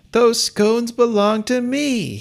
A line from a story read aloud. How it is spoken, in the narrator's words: he yelled